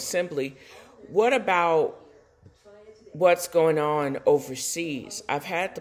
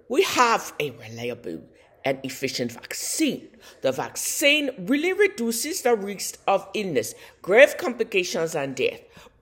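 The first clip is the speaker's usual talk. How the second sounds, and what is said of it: Bad put-on Russian accent. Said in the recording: “This is the worst Russian accent you could ever imagine.”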